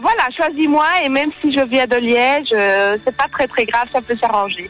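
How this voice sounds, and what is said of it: Liège Belgian French accent. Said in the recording (French): “J'adore l'accent liégeois.”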